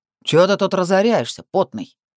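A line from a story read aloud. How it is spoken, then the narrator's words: Barked. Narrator (Russian): рявкнул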